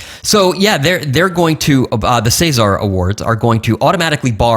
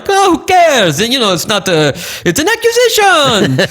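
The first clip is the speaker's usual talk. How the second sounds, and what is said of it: Bad fake French accent. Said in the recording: “my bad French accent”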